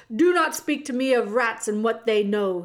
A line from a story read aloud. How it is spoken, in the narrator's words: he shouted